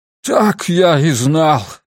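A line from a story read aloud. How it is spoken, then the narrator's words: Groaned. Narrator (Russian): простонал он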